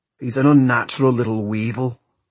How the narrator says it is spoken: growled Tam Lin

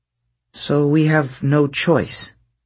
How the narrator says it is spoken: she said miserably

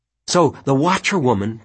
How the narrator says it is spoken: Penny said eagerly

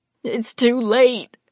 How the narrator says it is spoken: Peggy moaned

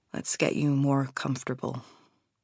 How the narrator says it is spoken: he says tenderly

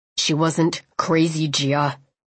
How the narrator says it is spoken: he said coldly

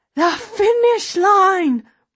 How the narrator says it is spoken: Rosa cries

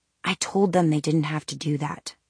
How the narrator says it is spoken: Alec murmured back

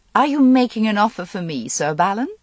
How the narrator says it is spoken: He chuckled

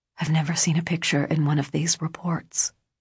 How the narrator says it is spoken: he whispered

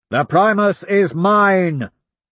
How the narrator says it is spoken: I roar to my army and to theirs

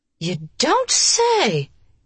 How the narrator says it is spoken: Her voice showed her exasperation

